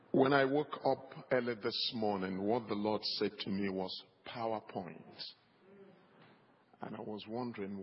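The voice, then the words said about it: African accent. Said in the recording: “You now listen to the African accent.”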